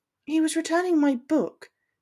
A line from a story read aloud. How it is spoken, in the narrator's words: she explained, uneasily